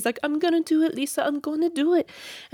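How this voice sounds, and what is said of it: Odd put-on accent imitating James Kennedy. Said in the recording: “sorry, I don't know what accent that was”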